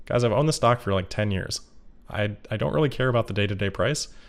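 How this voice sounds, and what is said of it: Flat monotone voice. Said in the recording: “I'm just kind of a monotone person, so it might seem like I'm a little bit sadder than I am”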